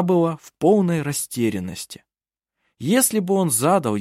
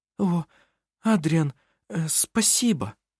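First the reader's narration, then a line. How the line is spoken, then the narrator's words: Stammering. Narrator (Russian): Заикаясь, проговорила она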